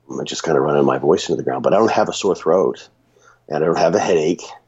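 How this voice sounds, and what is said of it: Raspy, hoarse sick voice. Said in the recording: “my voice is a little raspy, ... from talking and being sick.”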